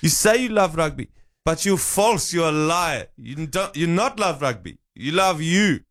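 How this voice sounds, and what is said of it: South African accent, Rassie Erasmus impression. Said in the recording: “My South African accent is based entirely off one, that I went to primary school who was from South Africa, and two, Razzy Erasmus videos ... His passionate speeches.”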